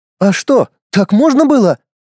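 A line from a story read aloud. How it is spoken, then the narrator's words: Astonished exclamation. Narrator (Russian): изумленно воскликнула Саманта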